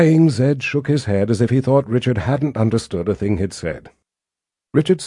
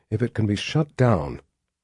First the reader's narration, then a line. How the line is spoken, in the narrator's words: Richard murmured,